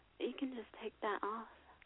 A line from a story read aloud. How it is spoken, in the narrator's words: She whispered